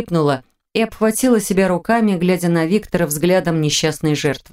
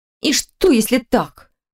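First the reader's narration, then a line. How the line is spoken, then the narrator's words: Snorting. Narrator (Russian): фыркнула Линда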